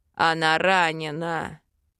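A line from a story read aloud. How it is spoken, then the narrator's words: Growled. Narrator (Russian): Рыкнул Йорн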